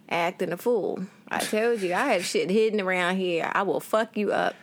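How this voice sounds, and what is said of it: Put-on Southern US accent. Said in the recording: “Why are you starting to talk like that? ... the accent went weird for a second ... south I'm south again”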